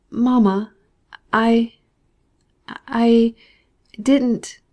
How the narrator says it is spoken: stammered Zaroza

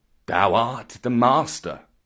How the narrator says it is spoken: said Bagheera in an undertone

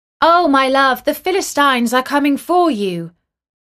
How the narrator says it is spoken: she called out

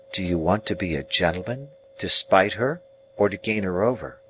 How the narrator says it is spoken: Biddy quietly asked me, after a pause

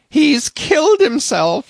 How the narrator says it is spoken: she cried

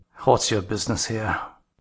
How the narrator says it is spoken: he demanded, grimly

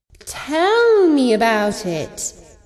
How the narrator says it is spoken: she purred

